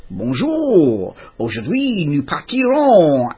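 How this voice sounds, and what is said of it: Put-on French accent. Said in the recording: “in my best French accent”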